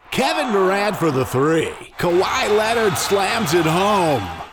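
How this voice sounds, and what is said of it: Sports announcer voice. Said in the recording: “my sports announcer voice”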